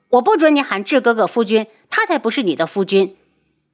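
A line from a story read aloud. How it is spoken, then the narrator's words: Angry. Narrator (Chinese): 素如意恼怒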